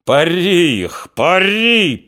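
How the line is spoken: Hoarse shouting. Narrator (Russian): хрипло кричал Григорий

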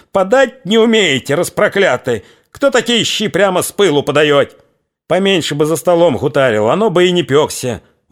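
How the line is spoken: Pained, vexed wild yell. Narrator (Russian): С досады, обжегся, заорал дурным голосом

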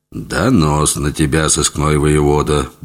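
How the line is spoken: Gruff mutter. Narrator (Russian): буркнул он вместо приветствия

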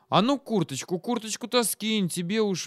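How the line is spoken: Loud mutter. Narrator (Russian): громко бормотнула

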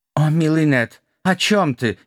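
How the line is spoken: Nearly sobbing. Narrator (Russian): едва не разрыдался чувствительный Валера

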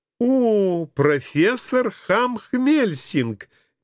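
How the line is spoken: Sudden joyful exclamation. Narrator (Russian): неожиданно радостно кинулась она

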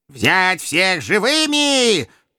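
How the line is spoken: Shrill howl. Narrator (Russian): тонко взвыл глава совета

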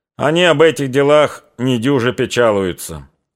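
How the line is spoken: Deep booming bass. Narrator (Russian): заговорил он гудящим густым басом

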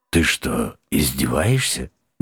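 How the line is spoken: Unexpectedly quiet and warm. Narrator (Russian): неожиданно тихо и даже как-то душевно уточнил голос

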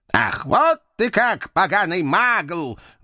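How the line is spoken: Old man's menacing roar. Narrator (Russian): Грозно взревел старичок

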